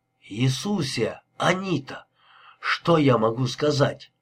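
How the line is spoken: Strained, forced out. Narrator (Russian): Мануэль выдавил из себя

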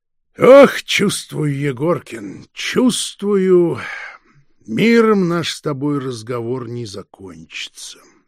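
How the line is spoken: Sighing. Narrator (Russian): вздохнул фон Шпинне

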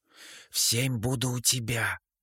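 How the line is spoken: Whisper. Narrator (Russian): шепнула Прокси

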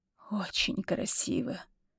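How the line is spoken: Hoarse. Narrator (Russian): хрипло произносит Юсупов

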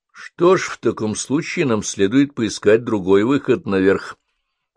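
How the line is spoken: Plain. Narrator (Russian): ответил доктор Блейкли

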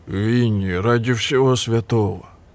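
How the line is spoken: Deep bass voice. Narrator (Russian): пробасил Барни

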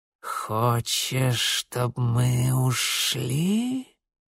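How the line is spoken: Creaky voice close by. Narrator (Russian): проскрипело у него над ухом

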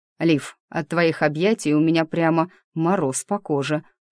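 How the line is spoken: Wry snort. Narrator (Russian): хмыкнул меж тем Диего

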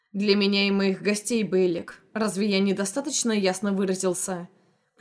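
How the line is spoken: Curt and menacing. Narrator (Russian): Припечатал он грозно

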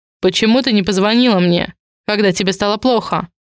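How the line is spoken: Icy question. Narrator (Russian): Ледяным тоном спрашивает он

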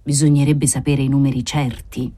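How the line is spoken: Usher murmuring. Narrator (Italian): mormorò l'usciere

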